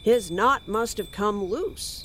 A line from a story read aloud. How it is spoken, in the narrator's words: Arthur said